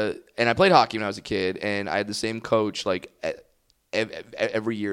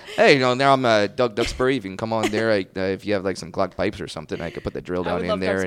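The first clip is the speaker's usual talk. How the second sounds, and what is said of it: Put-on Canadian accent. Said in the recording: “when I do a Canadian accent, I'm just doing his voice ... I'm just doing an impression”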